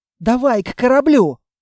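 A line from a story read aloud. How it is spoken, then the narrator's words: Exclaimed. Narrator (Russian): воскликнула Анна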